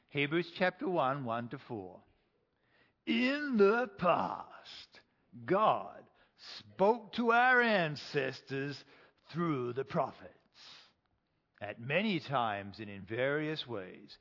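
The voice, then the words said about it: Exaggerated deep movie-trailer voice. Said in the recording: “I'm going to use the deep voice, my crappy version of the deep voice”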